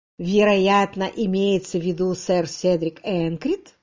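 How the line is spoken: Bored voice. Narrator (Russian): скучным голосом сказал Родерик

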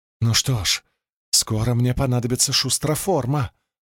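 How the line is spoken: Whisper. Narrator (Russian): прошептала она Улиму

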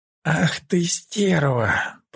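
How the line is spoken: Pained groan. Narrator (Russian): простонал Таленор, сгибаясь от боли

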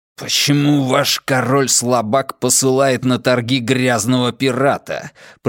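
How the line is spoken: Hissed, echoing. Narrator (Russian): прошипел фьерданский посол, и его слова эхом прокатились по собору

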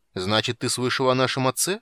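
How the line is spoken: Abrupt question. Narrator (Russian): спросил Танин, резко меняя тему разговора

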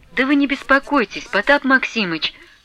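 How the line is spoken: Timid interjection. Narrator (Russian): робко вступилась Марья Гавриловна

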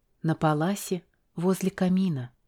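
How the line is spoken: Whispered. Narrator (Russian): прошептала я

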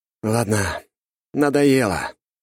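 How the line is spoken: Sighing. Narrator (Russian): я вздохнул

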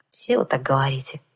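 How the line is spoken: Sighing. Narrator (Russian): вздохнула я

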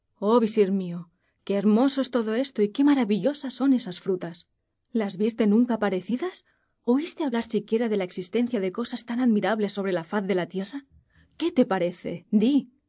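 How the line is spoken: Exclaimed. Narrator (Spanish): Y acabó por exclamar

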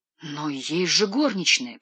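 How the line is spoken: Moaning. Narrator (Russian): простонала Женевьева

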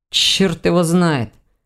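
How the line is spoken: Grumbling. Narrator (Russian): проворчал Ваня

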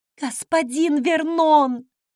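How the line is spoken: Maid's sharp exhale. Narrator (Russian): Горничная резко выдохнула

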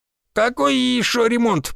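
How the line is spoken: Creaky old man's voice. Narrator (Russian): проскрипел старик

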